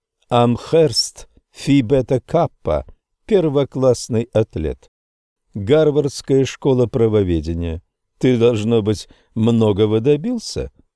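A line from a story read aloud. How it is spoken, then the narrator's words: Laughing. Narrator (Russian): О'Грэди засмеялся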